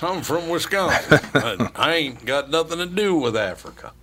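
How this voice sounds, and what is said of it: Put-on Texas accent. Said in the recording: “now in Wisconsin, they're speaking with a Texas accent”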